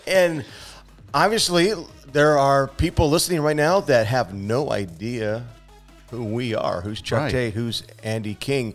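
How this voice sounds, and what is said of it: Speaks with a noticeable accent. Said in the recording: “does have the accent.”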